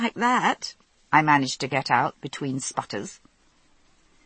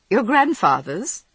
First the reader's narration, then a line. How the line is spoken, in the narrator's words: guessed, making a highly unsuccessful effort to suppress my giggling